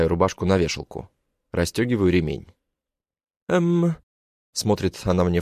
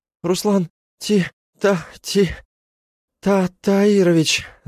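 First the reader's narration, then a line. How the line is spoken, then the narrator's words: Stammering. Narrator (Russian): Запинается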